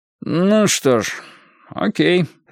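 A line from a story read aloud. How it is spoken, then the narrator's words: Forced, reluctant. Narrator (Russian): выдавил он из себя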